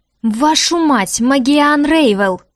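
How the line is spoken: Growled. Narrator (Russian): зарычал магистр Литвик

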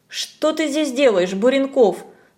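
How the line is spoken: Stern question. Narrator (Russian): строго спросила Надя

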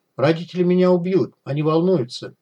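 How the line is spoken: Sighing, patient explanation. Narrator (Russian): он вздохнул и терпеливо объяснил

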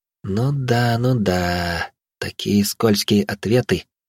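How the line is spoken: Thoughtful drawl. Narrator (Russian): задумчиво протянула

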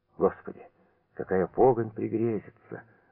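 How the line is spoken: Whispered. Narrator (Russian): прошептал

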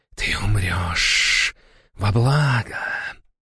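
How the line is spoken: Menacing whisper. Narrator (Russian): прошептала она

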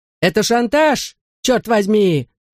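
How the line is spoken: Angry shout. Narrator (Russian): закричал мистер Молтри

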